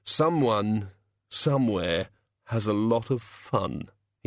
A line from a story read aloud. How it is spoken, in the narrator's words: said wistfully